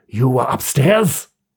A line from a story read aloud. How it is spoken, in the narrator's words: growled Tusman